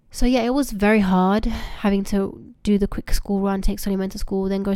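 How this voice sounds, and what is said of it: Rusty, strained voice. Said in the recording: “excuse me for my voice ... my voice is a bit rusty, it's just because I've not been well, and I'm only just getting over a cough, so it's taking a lot of effort for me to talk right now”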